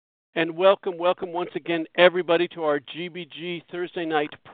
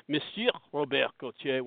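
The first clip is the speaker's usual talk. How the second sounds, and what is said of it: Attempted French accent. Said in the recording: “when I try and practice my accent”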